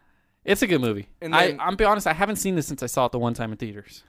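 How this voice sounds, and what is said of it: Usual voice. Nothing is said of it.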